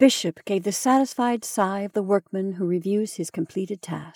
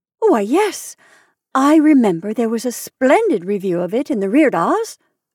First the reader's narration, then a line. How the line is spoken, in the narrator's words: cried Mrs